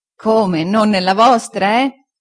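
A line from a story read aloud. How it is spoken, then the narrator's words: Laughing reply. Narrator (Italian): rispose Omer ridendo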